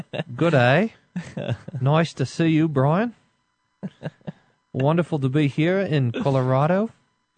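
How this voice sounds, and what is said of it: Australian accent, rising sentence endings. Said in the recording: “You want to hear my Kleinig Australian accent? ... He goes up at the end of the sentence, is how Dr. Kleinig's Australian accent is.”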